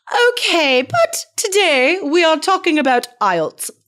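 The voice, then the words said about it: Imperfect put-on British accent. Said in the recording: “I don't know what that accent was... sounds very British to me. Kind of British... It was, but I did not nail it.”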